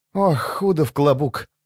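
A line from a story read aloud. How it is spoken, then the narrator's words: Sighing. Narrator (Russian): вздохнула она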